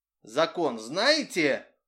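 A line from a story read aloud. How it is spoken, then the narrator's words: Stern. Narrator (Russian): строго сказал приехавший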